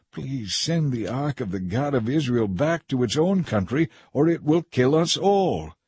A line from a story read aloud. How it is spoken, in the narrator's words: the people begged them